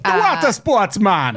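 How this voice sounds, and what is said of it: Imitated Bahamian accent. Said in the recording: “But like in a Bahamian accent.”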